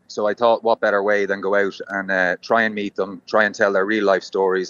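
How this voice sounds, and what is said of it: Irish accent. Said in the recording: “Irish men who have travelled ... They just hear my accent and they presume Paddy”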